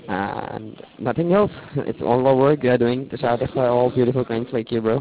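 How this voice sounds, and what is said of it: Hoarse, sore-throated voice. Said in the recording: “I'm just having not a good voice right now ... I'm having a really sore throat. So that's why my voice is such a bad quality right now ... I'm having cold flu.”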